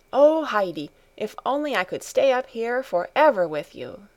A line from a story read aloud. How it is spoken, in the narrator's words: she exclaimed happily